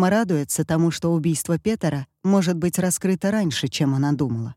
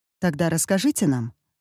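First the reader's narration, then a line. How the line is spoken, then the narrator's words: Calm reply. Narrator (Russian): спокойно отвечает Эмма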